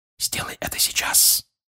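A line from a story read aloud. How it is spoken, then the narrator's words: Father whispering. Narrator (Russian): прошептал отец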